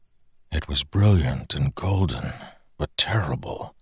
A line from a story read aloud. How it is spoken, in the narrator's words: Dalinar whispered